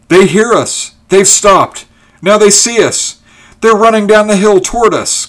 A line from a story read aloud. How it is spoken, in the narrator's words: cried Ulrich